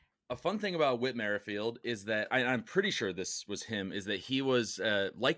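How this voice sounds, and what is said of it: Usual voice. Nothing is said of it.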